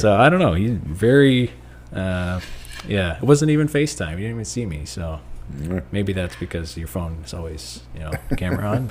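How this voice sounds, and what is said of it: Slightly raspy voice. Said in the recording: “why my voice is a little bit raspier”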